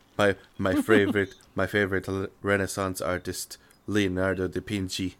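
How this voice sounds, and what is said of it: Monotone voice. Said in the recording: “monotone voice”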